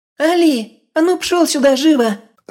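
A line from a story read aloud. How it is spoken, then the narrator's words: Shrieking girl. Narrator (Russian): Снова завизжала девчонка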